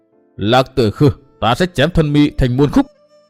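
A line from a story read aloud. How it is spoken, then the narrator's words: Shouted through gritted teeth. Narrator (Vietnamese): Chàng nghiến răng quát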